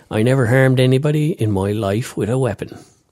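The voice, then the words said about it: Put-on accent. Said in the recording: “I'm going to do the accent again”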